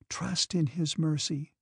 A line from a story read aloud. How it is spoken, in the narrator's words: in a particularly respectful and tenderly sad voice, she said